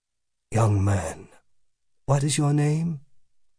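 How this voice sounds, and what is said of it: Slow, sonorous, commanding voice. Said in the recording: “His voice was sonorous, hypnotic. It was a voice that took its time, a voice full of patience and command.”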